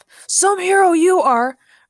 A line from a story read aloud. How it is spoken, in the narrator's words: Ray shouted after Peter as he fled